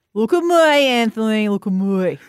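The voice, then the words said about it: Exaggerated Australian Bogan accent. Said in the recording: “Probably Bogan. ... We have to kind of go really cringeworthy with our ochre accents.”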